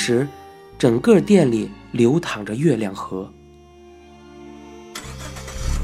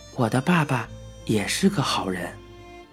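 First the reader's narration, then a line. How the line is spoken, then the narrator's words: Low voice, close. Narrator (Chinese): 男招待在我的脸边低声的说道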